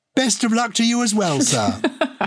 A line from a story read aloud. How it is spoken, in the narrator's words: cried the master